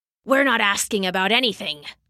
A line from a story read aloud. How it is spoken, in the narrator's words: snapped the wolf